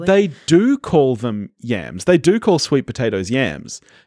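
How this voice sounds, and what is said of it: Non-American accent. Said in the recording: “I'm not American. I don't know if you can tell that from my voice”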